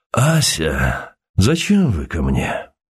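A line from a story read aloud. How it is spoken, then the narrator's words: Hoarse, false voice. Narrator (Russian): проговорил осевшим фальшивым голосом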